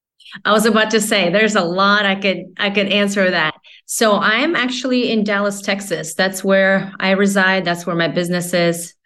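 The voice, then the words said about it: Non-local, non-Texan accent. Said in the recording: “people can probably tell by your accent that you're not Dallas born and bred”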